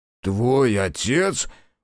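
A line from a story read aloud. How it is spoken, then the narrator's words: Surprised bark. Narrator (Russian): удивленно гаркнула Аяшики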